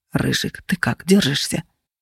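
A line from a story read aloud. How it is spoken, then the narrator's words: Quiet, anxious question. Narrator (Russian): тихо и взволнованно спросил Феникс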